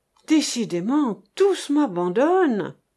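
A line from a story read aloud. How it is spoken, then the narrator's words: Sighing. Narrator (French): fit-il avec un soupir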